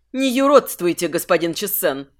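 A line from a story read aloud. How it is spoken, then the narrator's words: Icy demand. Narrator (Russian): Теперь уже ледяным тоном потребовала Хеленебл Тусаим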